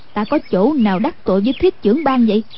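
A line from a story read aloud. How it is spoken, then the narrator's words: Cold. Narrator (Vietnamese): Anh cô lạnh lùng nói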